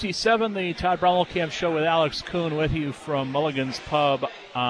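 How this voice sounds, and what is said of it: Usual voice. Nothing is said of it.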